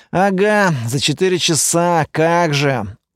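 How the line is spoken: Dejected. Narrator (Russian): уныло ответил напарник

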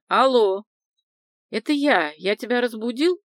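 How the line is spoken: Booming voice. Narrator (Russian): прогудел голос Гурьянова

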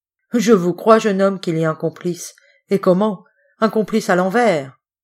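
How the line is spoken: Sneering. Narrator (French): ricana Monsieur de Mérantin

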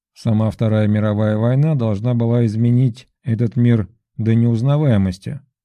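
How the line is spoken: Plain. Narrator (Russian): сказал президент Путин

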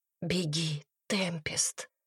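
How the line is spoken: Barely audible whisper. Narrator (Russian): Она говорила так тихо, что Темпест едва ее слышала

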